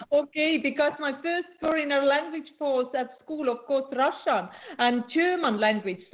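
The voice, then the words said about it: Nordic accent in English. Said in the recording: “not the fluent English ... I have very interesting Nordic accent”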